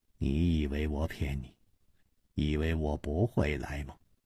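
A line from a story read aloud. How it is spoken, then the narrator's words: Muttering. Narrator (Chinese): 梁妈嘟囔着说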